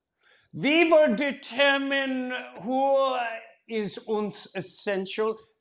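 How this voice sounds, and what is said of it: Put-on foreign accent. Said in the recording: “if you just change the accent”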